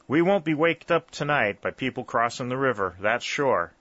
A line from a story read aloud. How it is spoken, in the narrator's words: said Jarvis